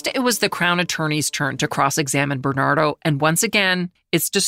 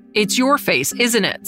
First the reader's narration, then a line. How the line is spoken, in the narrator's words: said Houlihan, raising his voice